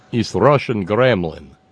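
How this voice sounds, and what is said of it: Cheesy fake Russian accent. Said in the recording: “my cheesy Russian accent”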